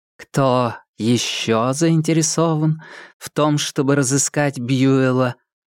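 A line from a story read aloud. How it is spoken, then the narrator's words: Plain. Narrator (Russian): спросила супруга бухгалтера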